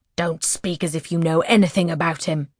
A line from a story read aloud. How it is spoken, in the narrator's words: the Duchess snaps